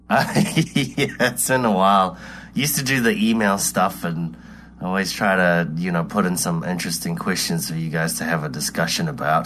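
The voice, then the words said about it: New Zealand accent. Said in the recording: “Probably got a weird accent because I'm all the way in middle New Zealand.”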